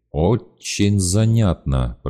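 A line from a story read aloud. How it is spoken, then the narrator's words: Through gritted teeth. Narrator (Russian): процедил Гриша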